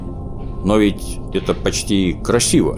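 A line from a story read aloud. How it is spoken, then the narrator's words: Uncertain. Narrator (Russian): Неуверенно произнес Снус-Мумрик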